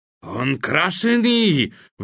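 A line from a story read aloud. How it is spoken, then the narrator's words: Roaring. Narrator (Russian): взревел ваххабит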